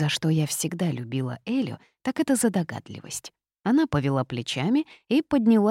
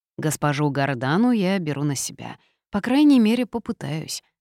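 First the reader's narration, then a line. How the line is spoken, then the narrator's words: Sigh. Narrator (Russian): вздохнул маг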